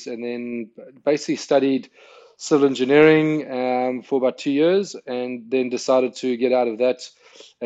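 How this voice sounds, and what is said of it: South African accent. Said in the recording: “outside of an accent ... I'm South African born, grew up in South Africa”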